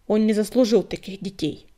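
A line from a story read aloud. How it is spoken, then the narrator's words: Grumbling stoat. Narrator (Russian): Буркнула горностайка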